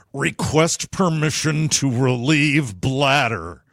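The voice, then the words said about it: Scott Glenn impression. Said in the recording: “my fabulous impression of the legendary actor Scott Glenn ... A Scott Glenn impression”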